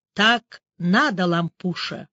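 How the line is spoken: Quiet. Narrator (Russian): тихо произнес друг

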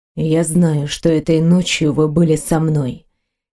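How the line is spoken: Quiet reply. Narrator (Russian): тихо ответил Грегор

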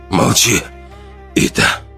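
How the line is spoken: Hoarse, strained. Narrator (Russian): Хрипло выдавил Ран

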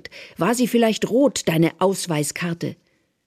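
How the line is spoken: Shouting. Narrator (German): Therese schreit

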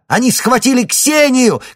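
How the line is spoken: Shout. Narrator (Russian): крикнула Лариса

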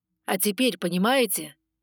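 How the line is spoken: Stern question. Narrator (Russian): спросил строго

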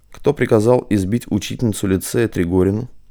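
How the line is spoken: Quiet but distinct. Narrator (Russian): негромко, но отчетливо произнес Матвей

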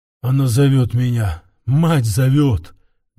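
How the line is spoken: Muffled mutter. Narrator (Russian): глухо пробормотал

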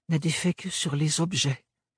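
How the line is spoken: Breathy whisper. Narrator (French): souffla Ophélie

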